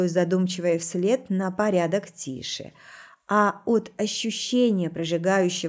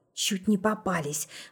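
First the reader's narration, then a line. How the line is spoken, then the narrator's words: Breathless chuckle. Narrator (Russian): выдохнула со смешком Ритка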